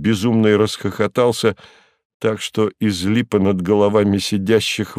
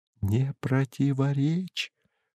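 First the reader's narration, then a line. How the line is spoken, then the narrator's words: Mouthed whisper. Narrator (Russian): одними губами шепнул Берлиоз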